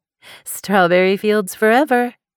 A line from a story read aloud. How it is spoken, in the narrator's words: Paris said with a laugh